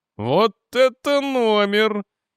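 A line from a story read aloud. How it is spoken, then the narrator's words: Giggling. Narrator (Russian): Хихикнул броский помощник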